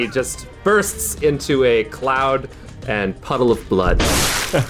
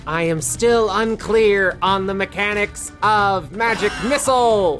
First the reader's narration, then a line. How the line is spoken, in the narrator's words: As Arete dies, he shouts to the universe